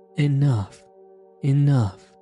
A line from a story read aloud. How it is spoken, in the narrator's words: cried the robber